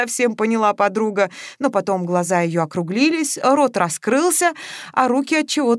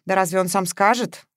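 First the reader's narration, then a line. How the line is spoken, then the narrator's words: Sad sigh. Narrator (Russian): грустно вздохнула Маша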